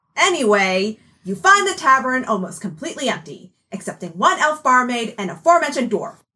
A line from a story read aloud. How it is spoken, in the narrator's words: shouted Cleo